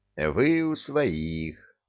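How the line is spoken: Maximally soothing tone. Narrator (Russian): мне пришлось говорить максимально успокаивающим тоном

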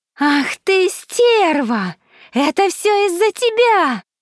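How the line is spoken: Scream. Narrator (Russian): закричала Селена

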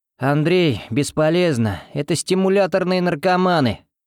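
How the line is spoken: Straining growl. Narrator (Russian): рыкнул Константин, вырываясь

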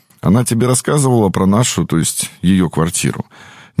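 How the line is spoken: Calm ghostly voice. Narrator (Russian): спокойно продолжал призрак

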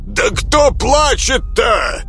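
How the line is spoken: Old man's frantic bellow. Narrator (Russian): гаркнул доведенный до крайней точки беспокойства дед

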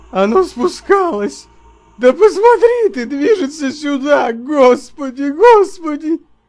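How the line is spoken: Shrill shriek. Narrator (Russian): И вскрикнул, словно взвизгнул

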